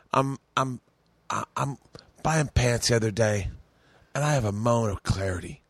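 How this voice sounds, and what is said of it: Imitates another person's voice. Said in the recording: “doing a bad Bobby impression”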